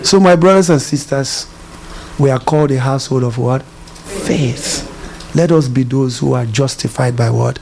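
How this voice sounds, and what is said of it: African accent. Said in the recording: “I have African accent.”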